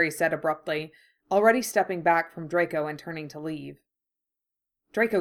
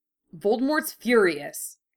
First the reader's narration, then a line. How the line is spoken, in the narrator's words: Harry snapped